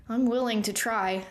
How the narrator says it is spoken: Thea said through clenched teeth

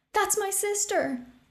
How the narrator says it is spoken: a man cried

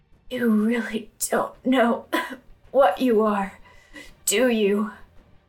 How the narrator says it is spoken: She rasped

